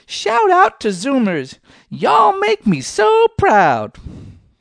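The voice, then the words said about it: Imitates another person's voice. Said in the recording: “I probably won't win any awards for my impersonation there”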